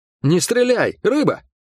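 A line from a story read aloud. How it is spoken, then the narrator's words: Barked shout. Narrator (Russian): гаркнул он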